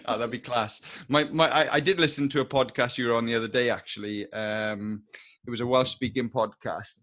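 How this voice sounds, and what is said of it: Strong Welsh accent. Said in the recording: “hear a good Welsh accent again ... I've definitely got a Welsh accent ... It's good. It's nice and strong.”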